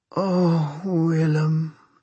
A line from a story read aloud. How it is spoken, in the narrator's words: she moaned